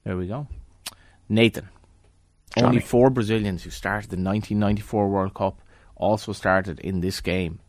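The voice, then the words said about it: Irish Galway accent. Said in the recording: “I've spent more time in Dublin now than Galway comfortably, and I don't think I've lost my accent ... No, you have not.”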